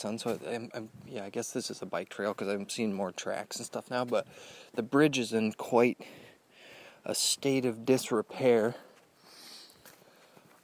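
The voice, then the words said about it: Speaks very quietly, hushed. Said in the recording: “I'm talking so quiet.”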